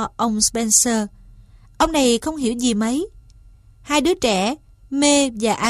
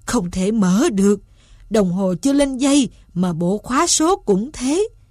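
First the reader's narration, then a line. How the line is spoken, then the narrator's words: Groaning. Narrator (Vietnamese): Ông rên rỉ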